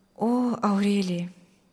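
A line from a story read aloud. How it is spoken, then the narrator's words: Quiet reply. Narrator (Russian): тихо отвечал Мирослав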